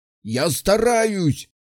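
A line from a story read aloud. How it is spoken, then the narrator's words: Man yelling. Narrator (Russian): орал мужик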